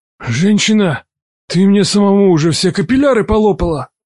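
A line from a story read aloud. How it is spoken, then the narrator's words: Grumbling. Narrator (Russian): проворчал Хасан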